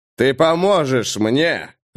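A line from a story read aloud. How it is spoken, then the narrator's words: Growling. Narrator (Russian): рыкнул Бенедикт Флеминг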